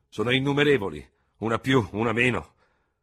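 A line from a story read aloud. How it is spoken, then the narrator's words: General's thundering voice. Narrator (Italian): tuonò il generale Feraud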